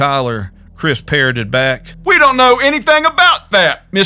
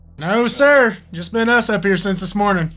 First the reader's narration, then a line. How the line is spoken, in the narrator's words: looked uneasily at Chris and answered